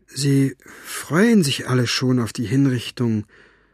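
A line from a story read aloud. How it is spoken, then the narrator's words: Halting voice. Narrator (German): erzählte er mit stockender Stimme weiter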